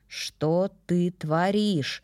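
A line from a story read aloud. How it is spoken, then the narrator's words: Almost growling. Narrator (Russian): практически прорычал он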